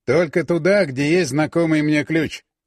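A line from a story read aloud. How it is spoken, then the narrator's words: Calm clarification. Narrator (Russian): спокойно уточнил Волков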